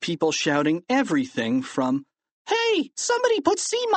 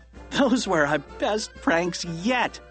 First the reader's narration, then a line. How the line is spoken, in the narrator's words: laughed Harold